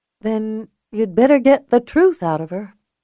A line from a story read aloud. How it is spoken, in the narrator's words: she said quietly